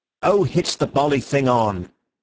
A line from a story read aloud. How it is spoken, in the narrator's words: said Syme impatiently